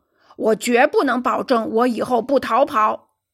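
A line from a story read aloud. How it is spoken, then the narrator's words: Shouting. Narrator (Chinese): 尼德兰喊道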